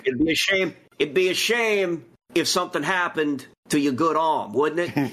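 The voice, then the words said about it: Put-on Italian mobster accent. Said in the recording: “basically my Italian guy ... How do you get that accent”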